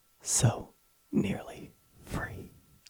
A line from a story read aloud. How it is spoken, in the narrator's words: The EEG flatlined as the subject weakly choked out